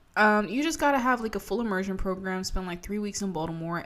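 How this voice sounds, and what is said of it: Maryland regional accent. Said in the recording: “we moved from Virginia to Maryland ... That's where I got this stupid fucking accent from”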